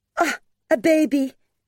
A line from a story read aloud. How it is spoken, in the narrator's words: she cried